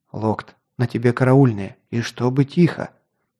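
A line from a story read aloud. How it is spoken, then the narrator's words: Whispered command. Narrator (Russian): шепотом приказал Кинт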